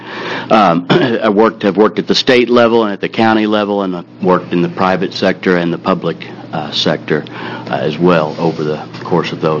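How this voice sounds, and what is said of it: Oklahoma accent. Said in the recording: “originally from Oklahoma, if the accent made you wonder”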